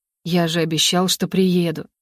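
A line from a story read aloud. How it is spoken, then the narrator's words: Whisper into hair. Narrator (Russian): прошептал ей в макушку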